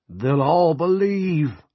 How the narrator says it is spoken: Coggins cried

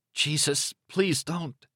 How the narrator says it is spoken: Extremely said in a very tiny voice

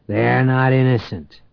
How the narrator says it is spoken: Beck growled

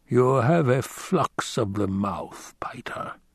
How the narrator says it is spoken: In a cold voice, the Baron said

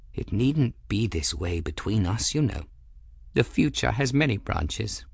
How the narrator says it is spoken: said gently

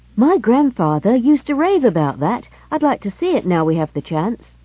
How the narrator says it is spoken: said Jimmy Spencer eagerly

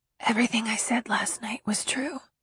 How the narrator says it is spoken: whispers

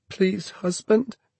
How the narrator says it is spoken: she cried, sobbing

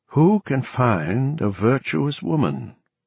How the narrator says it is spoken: Gooringer read, his voice a trifle uneven

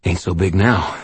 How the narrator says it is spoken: I panted

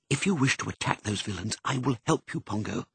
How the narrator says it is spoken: whispered

